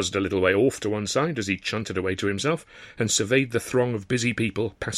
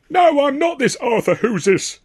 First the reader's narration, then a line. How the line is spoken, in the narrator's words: the cartoon comedian was loudly insisted